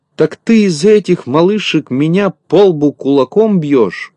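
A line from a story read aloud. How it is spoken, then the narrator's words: Shouting. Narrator (Russian): кричал Незнайка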